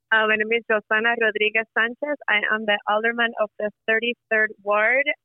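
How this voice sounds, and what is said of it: Thick Puerto Rican accent. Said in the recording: “I am a brown Puerto Rican woman with a very thick accent”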